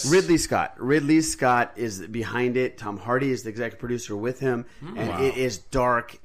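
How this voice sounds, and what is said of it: Southern American accent. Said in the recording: “your southern accent.”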